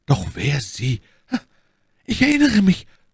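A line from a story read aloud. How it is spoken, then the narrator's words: Woman stammering. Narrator (German): stammelte Madame Bonacieux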